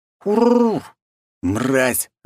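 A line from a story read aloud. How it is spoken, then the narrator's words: Angry growl. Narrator (Russian): рыкнул я, когда прямо на ухо заорал этот паршивец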